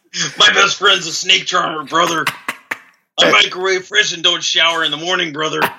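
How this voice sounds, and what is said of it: Hulk Hogan impression. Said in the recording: “Your Hulk Hogan impression, very strong ... who are you, Hulk Hogan? ... Hulk Hogan in the house.”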